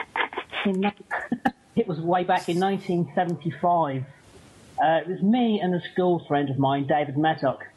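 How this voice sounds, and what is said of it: Strong accent, hard to understand. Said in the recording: “if you understand my accent ... barely”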